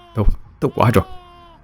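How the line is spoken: Relieved mutter. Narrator (Vietnamese): Thở phào một cái, nó lẩm bẩm nói

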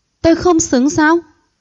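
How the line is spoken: Mocking, smiling. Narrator (Vietnamese): Hạ Tinh Hạ mỉm cười chế giễu

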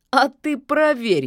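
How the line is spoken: Giggling. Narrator (Russian): хихикнул болотник

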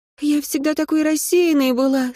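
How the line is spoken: Cheerful announcement. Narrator (Russian): сообщила радостно

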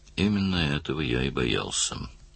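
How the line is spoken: Gloomy remark. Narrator (Russian): мрачно заметил Даллас

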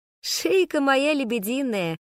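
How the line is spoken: Laughing loudly. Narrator (Russian): хохотала я

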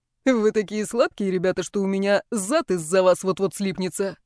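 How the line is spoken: Laughing. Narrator (Russian): рассмеялся

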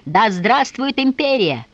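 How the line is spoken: Soldiers shouting. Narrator (Russian): французские солдаты, они кричали

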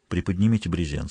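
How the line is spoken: Quiet. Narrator (Russian): сказал тихо

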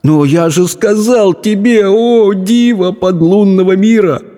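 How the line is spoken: Groaning. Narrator (Russian): простонал Абдулла

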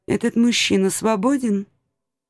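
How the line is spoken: Quiet question. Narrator (Russian): тихо спросила

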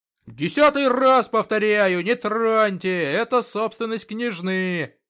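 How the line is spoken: Shouting. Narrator (Russian): завопил эльф

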